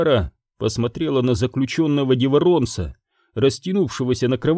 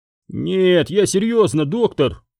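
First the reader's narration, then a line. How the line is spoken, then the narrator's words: Melancholy moan. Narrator (Russian): простонал Деворонец, меланхолично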